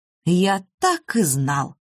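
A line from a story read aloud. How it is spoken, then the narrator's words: Solemn declaration. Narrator (Russian): торжественно заявил Михаил Аркадьевич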